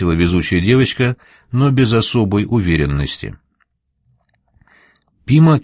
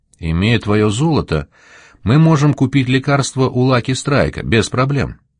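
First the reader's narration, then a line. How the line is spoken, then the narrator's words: Plain. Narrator (Russian): сказала она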